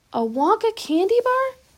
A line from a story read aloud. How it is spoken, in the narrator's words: cried Charlie